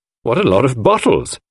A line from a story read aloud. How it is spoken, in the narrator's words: I exclaimed